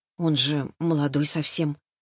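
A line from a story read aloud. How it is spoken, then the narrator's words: Quiet. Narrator (Russian): тихо проговорила я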